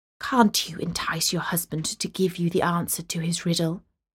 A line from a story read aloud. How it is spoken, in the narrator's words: the girl's father whispered into her ear